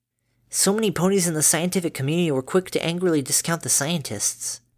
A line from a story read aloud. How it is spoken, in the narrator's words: Dinky said in a learned voice, mumbling